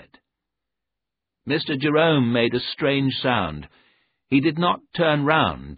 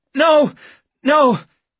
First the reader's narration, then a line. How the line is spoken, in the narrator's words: he cried